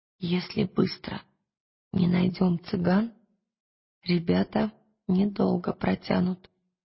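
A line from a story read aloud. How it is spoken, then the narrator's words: Whispered. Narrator (Russian): шепнула она Пантелеймону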